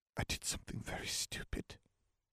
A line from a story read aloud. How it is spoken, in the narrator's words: Kitty whispered